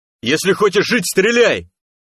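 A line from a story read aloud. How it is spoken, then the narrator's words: Yelling toward bushes. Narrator (Russian): заорал он в сторону кустов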